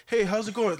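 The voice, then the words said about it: Higher-pitched polite professional voice. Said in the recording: “when I go professional ... I have to add a little bit, a higher pitch than I would rather”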